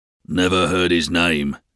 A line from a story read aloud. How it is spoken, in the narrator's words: said the waiter in a rich, husky voice